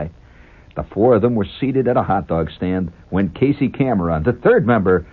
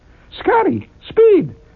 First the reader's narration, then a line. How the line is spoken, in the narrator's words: cried the beautiful girl